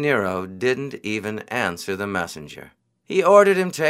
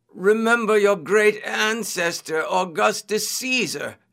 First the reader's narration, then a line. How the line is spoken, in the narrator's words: they cried